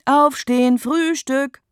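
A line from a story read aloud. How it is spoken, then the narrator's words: Loud echoing call. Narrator (German): hallt es laut durchs Treppenhaus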